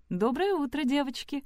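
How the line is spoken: Cheerful greeting. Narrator (Russian): бодро поздоровалась тетя Бет

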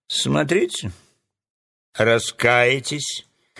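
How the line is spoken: Angry threat. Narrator (Russian): злобно пригрозил Джус

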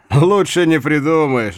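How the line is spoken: Laughing. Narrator (Russian): рассмеялся Хайме

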